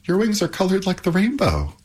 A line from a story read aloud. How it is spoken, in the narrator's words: exclaimed Pandora